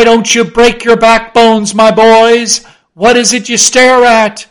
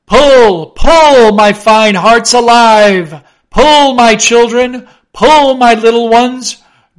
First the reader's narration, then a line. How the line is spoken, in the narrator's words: drawingly and soothingly sighed Stubb to his crew